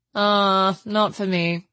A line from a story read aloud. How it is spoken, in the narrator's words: said the chaplain blandly